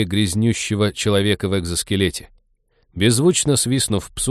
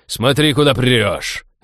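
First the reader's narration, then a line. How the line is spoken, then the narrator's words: Barking snap. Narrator (Russian): рявкнул Фрианин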